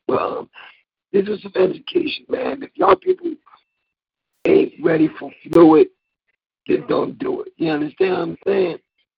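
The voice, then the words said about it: Hoarse voice. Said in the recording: “I got a hoarse voice. It'll be hard for me to do my Eagles chant.”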